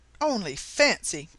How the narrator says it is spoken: cried Mrs

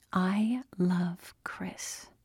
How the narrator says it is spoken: finally, Andy got up her nerve and whispered

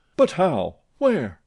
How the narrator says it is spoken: they cried in chorus

